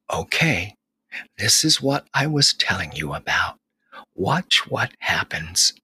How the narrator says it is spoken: The mama rabbit, who was resting and watching with her bunny, whispered

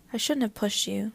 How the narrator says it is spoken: said, her voice low

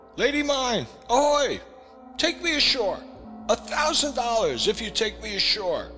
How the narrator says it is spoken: shouting

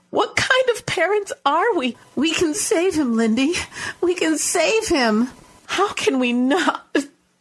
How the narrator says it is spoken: She choked on the final word and sobbed into her hands

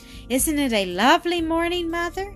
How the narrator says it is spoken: cried Mildred

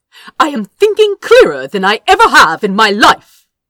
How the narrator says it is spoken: Azra snapped

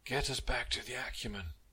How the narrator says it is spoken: Captain Arco croaked

